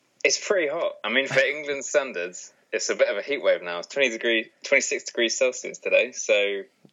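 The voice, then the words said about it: English accent. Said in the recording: “a real English accent”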